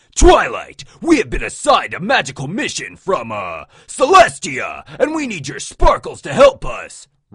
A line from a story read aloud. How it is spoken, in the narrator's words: Rainbow Dash bellowed